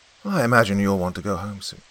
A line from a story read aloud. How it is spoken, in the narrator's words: he sighed